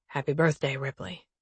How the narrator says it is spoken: Boone whispers

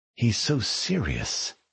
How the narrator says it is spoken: she murmured

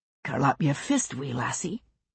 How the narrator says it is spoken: he said, almost gently

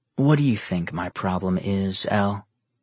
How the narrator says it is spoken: Nero calmly asked

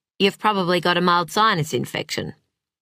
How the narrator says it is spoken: He said it in the same nonchalant tone

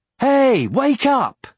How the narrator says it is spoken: he yelled

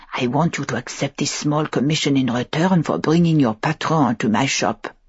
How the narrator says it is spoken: had whispered, her tone intimate and unpleasant

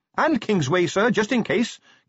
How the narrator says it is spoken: Carrot shouted down

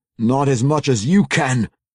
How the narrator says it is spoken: Wulfgar snarled back

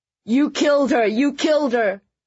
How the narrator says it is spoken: started screaming

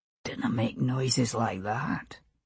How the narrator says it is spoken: he murmured against her skin

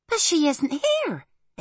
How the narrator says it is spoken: exclaimed Arietti

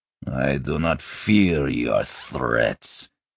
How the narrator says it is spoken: Fekolmich growled

